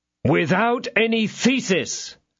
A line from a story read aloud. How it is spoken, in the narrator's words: cried D'Artagnan